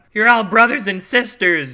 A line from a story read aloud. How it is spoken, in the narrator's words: she cried, trying to appeal to their sense of decency